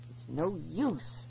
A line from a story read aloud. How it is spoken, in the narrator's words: I choked out